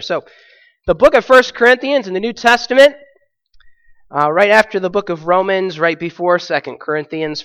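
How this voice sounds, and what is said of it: Sick, strained, squeaky voice. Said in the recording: “Excuse my voice, by the way. ... I had one of those weeks, sick ... So I may squeak through today”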